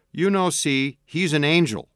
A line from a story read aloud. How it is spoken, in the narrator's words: Alan exclaimed and smiled